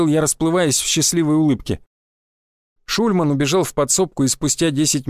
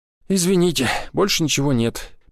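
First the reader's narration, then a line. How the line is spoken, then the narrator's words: Sad, old woman. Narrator (Russian): печально сказала женщина с морщинами, глубоко въевшимися в ее лицо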